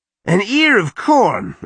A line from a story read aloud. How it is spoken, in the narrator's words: Arik shouted